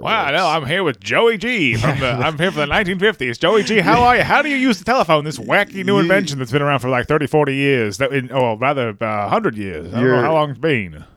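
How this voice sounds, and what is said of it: Fake transatlantic accent. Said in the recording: “Your fake transatlantic accent is ... But it's really similar to your regular podcast voice.”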